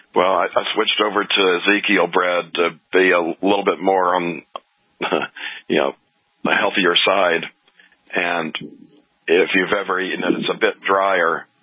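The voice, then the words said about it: Hoarse, rough voice. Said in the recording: “my voice is a little different today. ... it sounds like you've been coughing and hacking and a little under the weather.”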